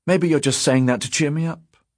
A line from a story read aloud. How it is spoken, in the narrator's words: Fazl said brightly